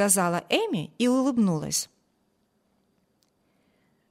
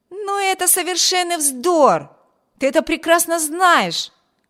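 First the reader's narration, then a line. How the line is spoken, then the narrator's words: Younger brother's indignant exclamation. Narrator (Russian): воскликнул ее младший брат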